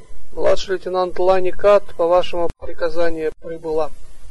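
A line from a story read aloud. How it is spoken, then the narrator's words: Reported in dejected voice. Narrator (Russian): Лани упавшим голосом доложила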